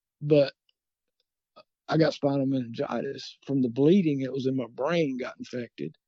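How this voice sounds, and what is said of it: Scratchy, tired voice. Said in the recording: “my voice is getting scratchy because I'm getting tired”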